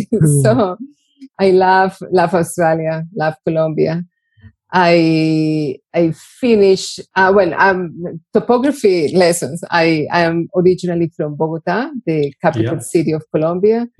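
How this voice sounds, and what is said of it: Strong Colombian Spanish accent. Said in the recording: “I'm from Colombia, since my very strong accent ... the thicker my accent gets”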